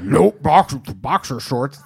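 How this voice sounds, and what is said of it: Angry Jeff May impression. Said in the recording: “your Jeff May impression? ... That's a good Jeff May ... It doesn't sound like Jeff's happy about it. It sounds like he's still angry.”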